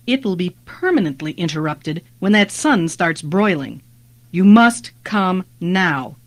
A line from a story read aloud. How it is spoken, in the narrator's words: Jenin said firmly